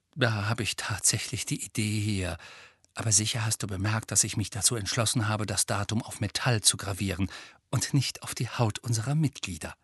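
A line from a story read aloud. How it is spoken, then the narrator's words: Quiet. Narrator (German): sagte Hermine leise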